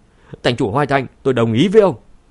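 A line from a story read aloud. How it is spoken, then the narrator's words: Alarmed shout. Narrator (Vietnamese): Khương Nham lập tức biến sắc, không do dự nữa hét lên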